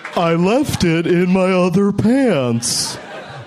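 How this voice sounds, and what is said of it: Imitates another person's voice. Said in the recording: “my Al Gore impression”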